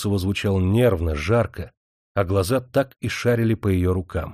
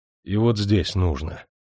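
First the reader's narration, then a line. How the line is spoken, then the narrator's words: Muffled command. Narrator (Russian): Николай Никитич глухо приказывал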